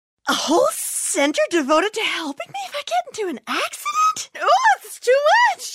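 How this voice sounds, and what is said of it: Overwhelmed, panicky character voice. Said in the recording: “my impression of an easily overwhelmed person”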